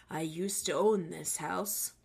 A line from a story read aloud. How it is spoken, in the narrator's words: He mumbled and spoke low and said